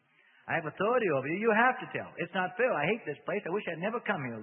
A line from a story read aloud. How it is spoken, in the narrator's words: Reuben said frantically